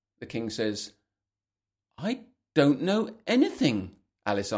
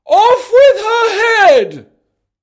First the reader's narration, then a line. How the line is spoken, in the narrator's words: The Queen screams